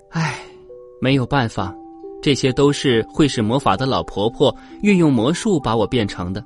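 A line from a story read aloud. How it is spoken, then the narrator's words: Sighing. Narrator (Chinese): 灰姑娘叹了口气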